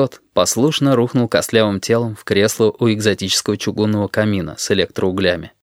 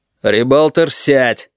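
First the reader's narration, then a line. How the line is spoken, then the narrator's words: Barked. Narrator (Russian): рявкнул Корнелий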